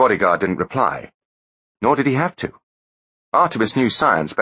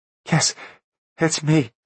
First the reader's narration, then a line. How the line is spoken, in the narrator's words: answered Artemis, his voice trembling